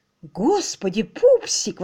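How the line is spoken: Exclaimed. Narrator (Russian): воскликнул он

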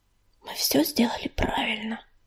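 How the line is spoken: Whispered. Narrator (Russian): шепнула она

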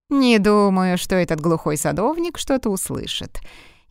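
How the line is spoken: Snide. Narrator (Russian): ехидно ответил

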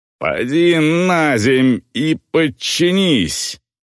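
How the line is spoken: Growled. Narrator (Russian): прорычал голос

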